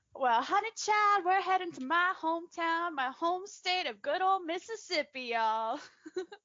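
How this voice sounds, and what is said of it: Exaggerated Southern US accent. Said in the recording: “My over-the-top southern accent”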